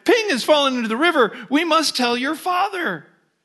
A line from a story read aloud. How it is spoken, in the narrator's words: Alarmed, mother cried